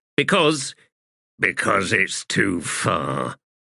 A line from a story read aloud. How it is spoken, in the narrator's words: Blistig growled